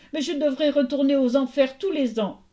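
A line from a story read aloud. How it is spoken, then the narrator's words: Sobbing reply. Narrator (French): répondit Perséphone en sanglotant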